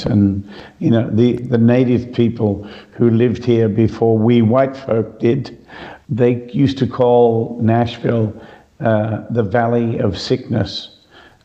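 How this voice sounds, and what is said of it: Slightly hoarse, throaty voice. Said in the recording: “I have a bit of a frog in my throat today ... it was a lot worse yesterday ... allergy stuff going on”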